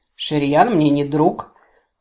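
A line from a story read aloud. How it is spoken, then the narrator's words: Half-elf's scoffing grunt. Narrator (Russian): хмыкнул полуэльф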